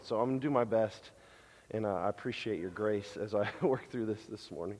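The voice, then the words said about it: Strained, failing voice. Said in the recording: “I don't know if I'm losing my voice or what's going on”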